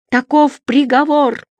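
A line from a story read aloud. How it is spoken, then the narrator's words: Shout. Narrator (Russian): закричала косматая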